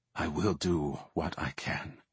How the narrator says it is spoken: whispered

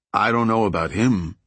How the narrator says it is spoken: Chueco said

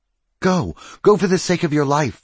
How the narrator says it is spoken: Fontaine cried

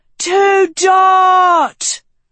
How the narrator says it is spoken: the crowd roared

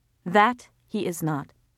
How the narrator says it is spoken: Mami said flatly

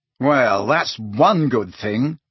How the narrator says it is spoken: he said savagely

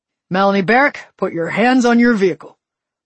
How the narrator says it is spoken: one of them barked

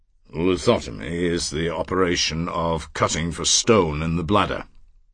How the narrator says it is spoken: Paris said in his deep, unhurried voice

